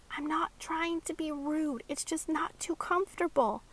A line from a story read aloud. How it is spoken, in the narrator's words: Maxie whispered back